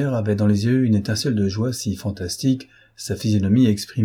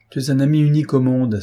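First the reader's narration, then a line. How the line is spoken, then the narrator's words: Exclaiming. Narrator (French): s'écria-t-il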